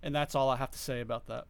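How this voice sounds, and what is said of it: Bad Forrest Gump impression. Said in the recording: “the probably, arguably, the two worst Forrest Gump impersonations”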